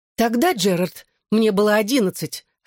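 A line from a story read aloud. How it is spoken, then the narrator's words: Snapped. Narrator (Russian): огрызнулась Клэр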